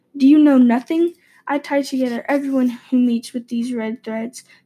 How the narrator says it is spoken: the old man sighed

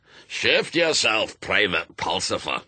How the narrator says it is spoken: it barked

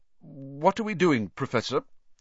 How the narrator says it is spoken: said Ron, nervously suppressing a burp

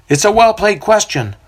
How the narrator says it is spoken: one of the elders remark a little too loudly

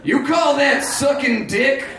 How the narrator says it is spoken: Grant screamed, lost in a powerful lust

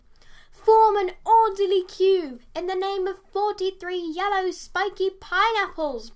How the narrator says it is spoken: bellowed Dave

